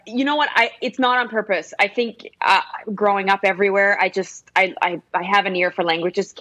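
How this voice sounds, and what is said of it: American English accent. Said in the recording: “I would not never have believed that you were not from the United States of America”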